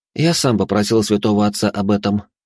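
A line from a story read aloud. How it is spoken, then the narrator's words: Calm reply. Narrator (Russian): спокойно ответил я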